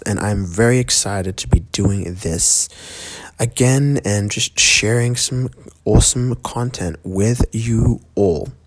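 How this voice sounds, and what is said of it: Quiet, hushed speaking voice. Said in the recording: “I'm talking so quietly right now... I have to kind of keep it down a little bit”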